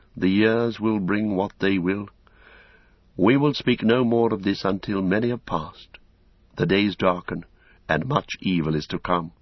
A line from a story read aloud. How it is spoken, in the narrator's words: sighed, gravely, said again